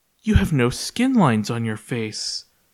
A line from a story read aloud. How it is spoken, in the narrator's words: Sita gasped